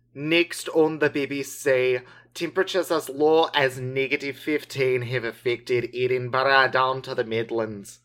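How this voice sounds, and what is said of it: Put-on Scottish accent. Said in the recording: “Are you Scottish? ... I think that's where the accent leaned into.”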